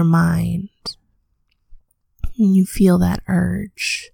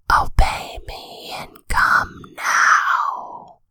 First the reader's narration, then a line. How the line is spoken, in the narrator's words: her whisper